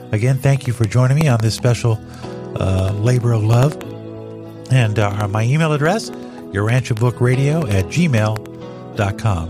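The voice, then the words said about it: Froggy, hoarse voice. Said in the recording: “my voice is getting a little froggy”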